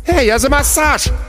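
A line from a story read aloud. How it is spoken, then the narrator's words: Yelling. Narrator (Russian): завопил Шибанай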